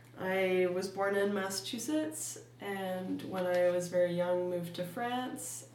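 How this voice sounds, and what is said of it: American accent. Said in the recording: “the American accent, which is the accent that I currently have”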